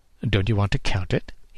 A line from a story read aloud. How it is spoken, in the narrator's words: he asked